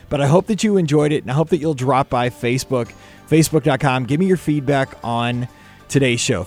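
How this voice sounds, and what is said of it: Hoarse, strained voice. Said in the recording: “losing my voice. I was already losing my voice before the show, but now I really am.”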